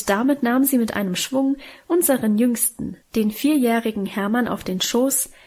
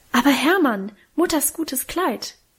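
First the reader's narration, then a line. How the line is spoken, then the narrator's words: Horrified cry. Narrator (German): rief Minchen entsetzt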